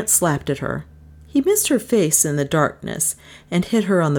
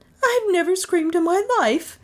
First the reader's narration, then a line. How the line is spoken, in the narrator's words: retorted